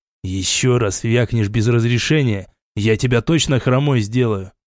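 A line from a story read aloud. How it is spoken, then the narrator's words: Hissed in the face. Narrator (Russian): прошипел я Лене прямо в лицо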